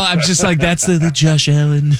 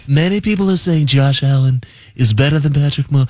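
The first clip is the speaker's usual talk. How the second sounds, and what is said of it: Trump impression sounding like Regis Philbin. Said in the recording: “Should I do a Trump impression ... It's more Regis Philbin. That was more Regis Philbin.”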